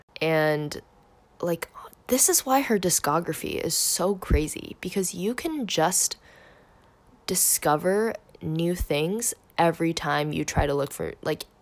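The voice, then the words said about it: Worn-out, strained voice. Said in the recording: “I'm recording this at night, and I swear my voice is, like, gone. Like, my voice, like, literally sounds, like, I probably, like, don't sound super hot”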